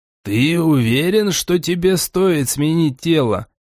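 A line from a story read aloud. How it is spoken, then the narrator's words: Uncertain asking. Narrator (Russian): неуверенно спросил Гримжоу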